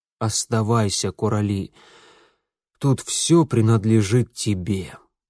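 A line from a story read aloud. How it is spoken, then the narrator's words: Quiet, sad, heartfelt voice. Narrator (Russian): сказал торговец, исходившим от души тихим и печальным голосом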